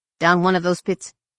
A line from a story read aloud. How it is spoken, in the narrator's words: Corin chuckled wryly